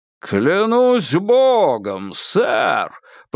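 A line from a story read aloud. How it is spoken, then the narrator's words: Booming. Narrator (Russian): прогудел Кинг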